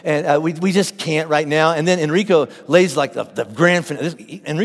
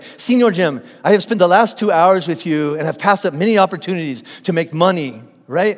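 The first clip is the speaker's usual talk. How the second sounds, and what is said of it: Put-on foreign accent. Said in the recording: “So all my accents sound the same. I'm sorry”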